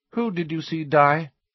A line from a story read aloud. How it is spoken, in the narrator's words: she asked, her tone indifferent